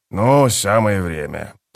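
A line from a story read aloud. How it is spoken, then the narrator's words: Grumbling. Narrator (Russian): проворчал он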